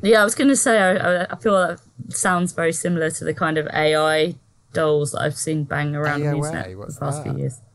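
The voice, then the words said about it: Ipswich English accent. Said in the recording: “your fancy Ipswich accent ... so posh”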